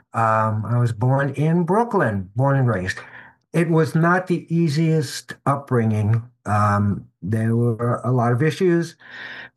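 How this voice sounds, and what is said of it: Slight New York accent. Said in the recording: “Maybe you can tell by a little bit of a New York accent.”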